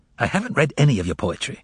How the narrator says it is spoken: retorted the visitor irritably

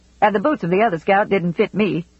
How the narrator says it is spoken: said Cade

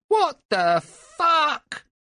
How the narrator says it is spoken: yelled Simon

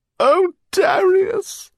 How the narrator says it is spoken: sobbed Eleanor

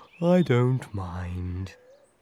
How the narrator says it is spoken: sighed Tortoise slowly

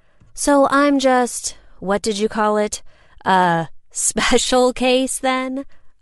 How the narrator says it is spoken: I laughed

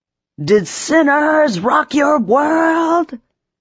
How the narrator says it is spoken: Max said slash screamed slash sang

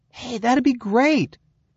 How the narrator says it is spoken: Christopher exclaimed with a grin

